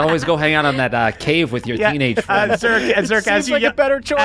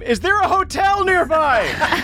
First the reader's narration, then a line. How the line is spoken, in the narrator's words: scream